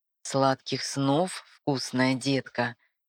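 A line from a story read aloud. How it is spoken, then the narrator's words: Tender whisper. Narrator (Russian): Нежно шепчет бабник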